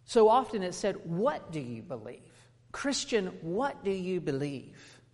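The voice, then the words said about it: Non-native accent. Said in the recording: “you can tell by my accent if you don't know me, as I'm not native”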